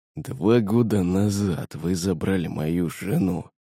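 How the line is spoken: Man wheezing, lying down. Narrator (Russian): хрипел мужик, лежа на полу

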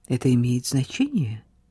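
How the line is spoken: Quiet. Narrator (Russian): тихо добавил

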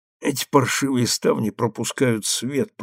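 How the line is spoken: Muttering. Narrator (Russian): пробормотал Эмиль

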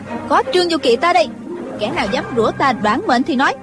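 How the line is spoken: Shout. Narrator (Vietnamese): kèm theo tiếng quát

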